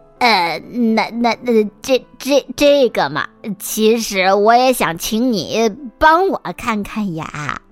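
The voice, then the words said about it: Quiet, hesitant, stammering voice. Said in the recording (Chinese): “小声的说了这句话”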